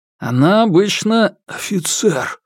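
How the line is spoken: Hoarse voice. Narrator (Russian): Голос Юань Сяо Фэна стал хриплым

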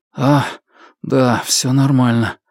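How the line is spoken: Mumbled. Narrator (Russian): пробормотал Фан Му

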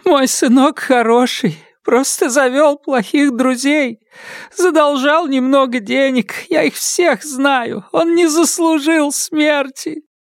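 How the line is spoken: Elderly woman sobbing. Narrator (Russian): Пожилая женщина всхлипывая, произнесла

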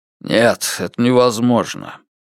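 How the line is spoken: Hoarse. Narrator (Russian): полицейский ответил хрипло

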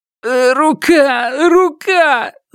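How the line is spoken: Pained groan. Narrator (Russian): застонал Ю Инвэй, защищая сломанную руку

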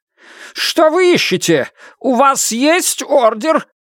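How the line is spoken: Shout, cheek pressed to table. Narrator (Russian): выкрикнул Джан Де Сянь, повернув голову, прижатую щекой к жесткой деревянной поверхности стола

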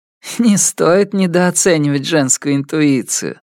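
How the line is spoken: Hoarse laugh. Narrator (Russian): она хрипло рассмеялась

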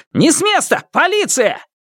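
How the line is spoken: Shout. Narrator (Russian): крикнув

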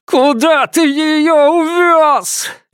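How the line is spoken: Desperate muffled screaming. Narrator (Russian): Лицо Цзянья было прижато к полу, а сам он надрывно кричал

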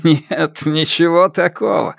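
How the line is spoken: Laughing. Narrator (Russian): сказал он, все еще смеясь

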